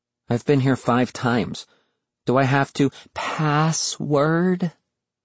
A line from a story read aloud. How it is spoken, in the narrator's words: Virgil sighed